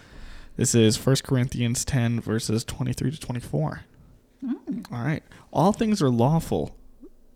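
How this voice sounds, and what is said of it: Announcer-style radio voice. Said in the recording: “you just kicked into your radio voice. ... you did the radio voice.”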